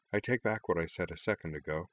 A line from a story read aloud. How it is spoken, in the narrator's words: she murmured